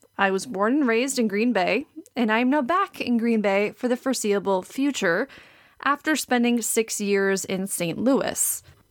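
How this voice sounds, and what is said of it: Wisconsin accent. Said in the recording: “new listeners might guess based on my accent, I am from Green Bay, Wisconsin”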